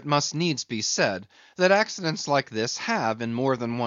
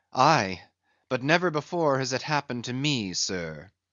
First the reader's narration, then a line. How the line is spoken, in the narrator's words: said the pale mate, gloomily